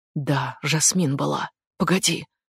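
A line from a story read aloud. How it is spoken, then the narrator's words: Sudden quiet exclamation. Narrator (Russian): Вдруг тихо воскликнула Дженни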